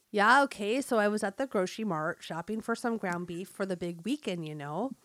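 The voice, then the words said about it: Put-on North Dakota Fargo accent. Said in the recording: “It's meant to be read with a North Dakota accent, like in the movie Fargo ... a Fargo-type accent”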